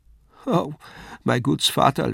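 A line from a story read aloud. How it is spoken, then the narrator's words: Sobbing. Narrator (German): schluchzte Lisei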